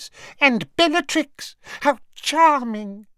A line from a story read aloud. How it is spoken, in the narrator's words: he said in a squeaky voice